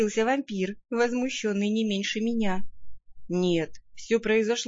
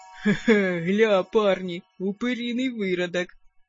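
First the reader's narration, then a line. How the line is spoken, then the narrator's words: Coarse chuckle. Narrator (Russian): хохотнул воин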